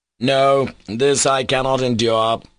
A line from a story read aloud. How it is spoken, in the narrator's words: he cried